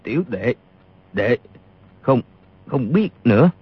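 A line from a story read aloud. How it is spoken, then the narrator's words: Trembling voice. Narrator (Vietnamese): Y run rẩy nói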